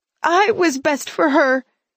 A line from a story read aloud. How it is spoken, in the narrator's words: she sobbed